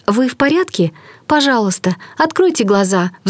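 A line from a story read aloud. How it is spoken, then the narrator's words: Pleading. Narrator (Russian): взмолилась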